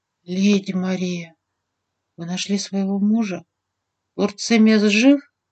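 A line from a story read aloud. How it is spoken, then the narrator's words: Quiet whisper. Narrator (Russian): Принц тихо прошептал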